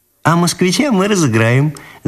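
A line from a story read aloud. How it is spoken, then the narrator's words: Laughing. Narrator (Russian): засмеялась Ниночка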